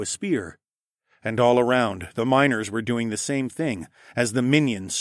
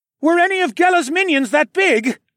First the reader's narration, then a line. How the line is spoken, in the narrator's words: shouted, after we both dove for cover